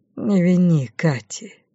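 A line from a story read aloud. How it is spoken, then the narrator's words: Quiet. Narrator (Russian): тихо произнес Артур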